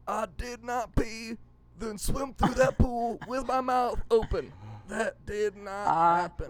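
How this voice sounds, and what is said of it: Imitates another person's voice. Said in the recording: “my Bill Clinton impression”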